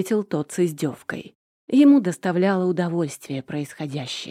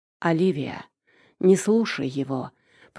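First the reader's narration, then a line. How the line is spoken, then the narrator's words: Weary, resigned voice. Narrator (Russian): произнес Морейн устало, даже с какой-то обреченностью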